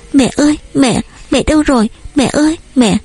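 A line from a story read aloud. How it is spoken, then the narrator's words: Whimpering, bursting into tears. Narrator (Vietnamese): Chị mếu máo kêu mẹ rồi khóc òa lên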